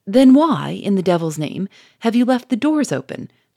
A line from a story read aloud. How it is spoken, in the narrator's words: cried Charolais, irritably